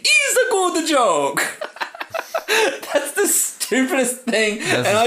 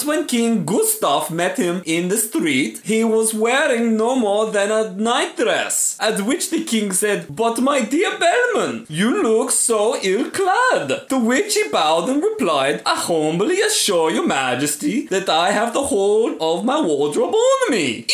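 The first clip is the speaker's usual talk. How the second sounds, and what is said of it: Exaggerated drawn-out foreign accent. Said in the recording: “I really drew that out with that stupid accent. I offended at least three different nationalities then.”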